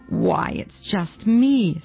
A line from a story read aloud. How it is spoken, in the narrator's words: said Rosina, bitterly disappointed